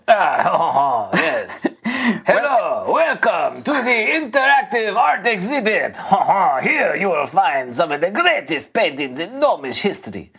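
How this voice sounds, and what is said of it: Put-on French accent. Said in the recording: “speaking with what strangely appears to be a French accent. ... French accent.”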